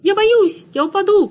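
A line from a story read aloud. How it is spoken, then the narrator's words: High squeak. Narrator (Russian): пропищал Тирли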